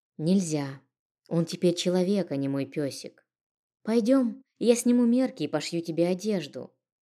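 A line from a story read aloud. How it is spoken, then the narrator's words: Very calm. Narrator (Russian): максимально спокойно произнесла я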